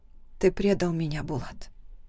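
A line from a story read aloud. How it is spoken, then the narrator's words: Quiet. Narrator (Russian): говорит тихо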